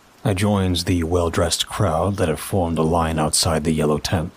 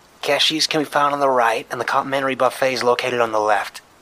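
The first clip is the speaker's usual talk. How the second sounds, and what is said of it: Woman with heavy Boston accent. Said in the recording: “a feminine voice with a heavy Boston accent”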